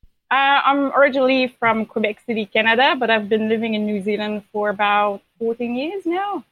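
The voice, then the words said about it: Mixed Canadian and New Zealand accent. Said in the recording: “You're Kiwi... when you said Canada, I was like, oh yeah, you're Canadian. And then when you said everything else, I was like, oh yeah, you're from New Zealand. I love your accent... you have an accent.”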